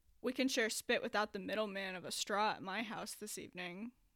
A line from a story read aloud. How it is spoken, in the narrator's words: Andrew said